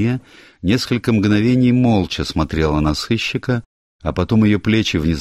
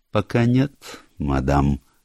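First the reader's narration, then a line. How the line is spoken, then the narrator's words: Slow reply. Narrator (Russian): медленно ответил сыщик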